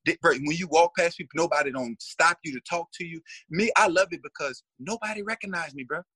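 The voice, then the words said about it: American accent. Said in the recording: “when they hear my accent ... oh, you from the States?”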